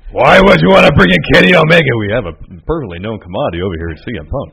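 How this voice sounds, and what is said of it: Poor Vince McMahon impression. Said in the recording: “my poor uh, Vince impersonation”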